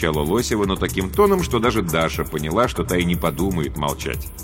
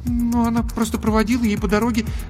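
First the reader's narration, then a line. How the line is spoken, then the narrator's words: Embarrassed babbling. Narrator (Russian): залепетала Даша, сама понимая, как глупо и смешно выглядит ее ложь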